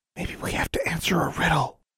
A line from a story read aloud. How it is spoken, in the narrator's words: whispered Sylvia